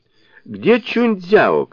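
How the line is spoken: Female shout. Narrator (Russian): крикнула она служанкам

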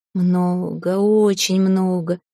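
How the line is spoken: Drawn out, crying. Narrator (Russian): протянула та сквозь плач

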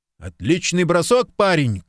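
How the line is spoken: Cheerful shout. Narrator (Russian): крикнул он, ещё не успев сообразить, какая случилась неприятность

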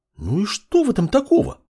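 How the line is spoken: Indignant girl exclaiming. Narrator (Russian): Возмущенно воскликнула девушка

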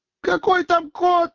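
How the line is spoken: Furious shout. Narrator (Russian): в злобе закричала девица

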